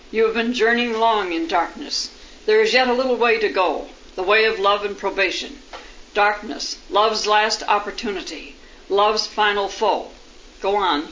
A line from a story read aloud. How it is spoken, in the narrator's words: he said